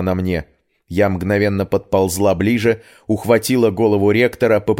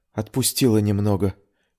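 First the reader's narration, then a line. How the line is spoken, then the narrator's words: Barely audible whisper. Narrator (Russian): едва слышно прошептала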